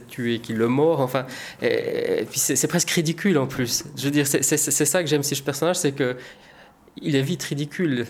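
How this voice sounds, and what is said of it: Slight Swiss French accent. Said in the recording (French): “on entend votre léger accent que vous êtes suisse”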